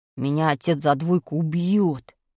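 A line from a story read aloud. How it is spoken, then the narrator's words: Moaning. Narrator (Russian): простонал Пашка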